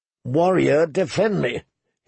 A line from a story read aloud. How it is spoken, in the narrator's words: he groaned